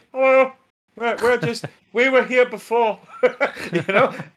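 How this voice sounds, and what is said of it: Put-on Irish accent. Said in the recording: “in a more Irish accent”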